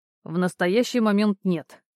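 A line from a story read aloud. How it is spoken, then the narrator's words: Curt, categorical. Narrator (Russian): отрубил Кирьянов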